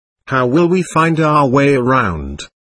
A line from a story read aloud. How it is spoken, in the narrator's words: I asked